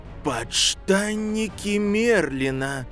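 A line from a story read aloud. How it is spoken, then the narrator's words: Breathless exclamation. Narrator (Russian): Выдохнул Фред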